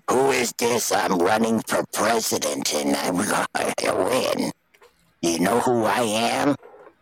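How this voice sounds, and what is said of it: Imitates another person's voice. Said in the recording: “Can't you tell by my voice I'm RFK? I got a cock in my throat.”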